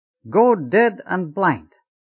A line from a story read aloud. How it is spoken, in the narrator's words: the forward section would shout